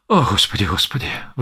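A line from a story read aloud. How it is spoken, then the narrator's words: Sighing. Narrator (Russian): вздохнул столяр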